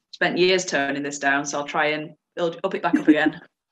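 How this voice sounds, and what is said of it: Northern English Yorkshire accent. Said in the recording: “a proud Yorkshire girl ... Can you tell she's a Northerner? ... my best Northern accent”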